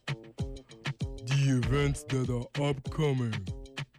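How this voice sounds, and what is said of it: Imitates another person's voice. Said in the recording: “my best Relly Rails impression”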